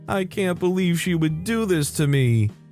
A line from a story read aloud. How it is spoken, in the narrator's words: shaking and still on the phone with his mom, wailing